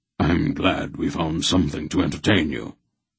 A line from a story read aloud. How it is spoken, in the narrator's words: Wolf said dryly